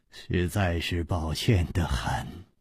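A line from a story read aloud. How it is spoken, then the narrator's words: Sighing. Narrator (Chinese): 张啸林叹了一口气说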